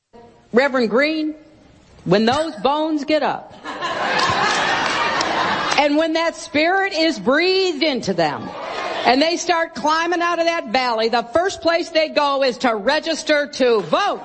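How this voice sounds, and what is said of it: Hillary Clinton's put-on Southern accent. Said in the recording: “She slips into that Southern accent again.”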